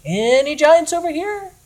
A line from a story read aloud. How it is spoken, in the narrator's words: he shouted from somewhere in the dark